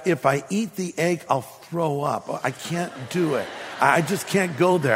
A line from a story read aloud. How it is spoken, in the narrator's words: I whispered back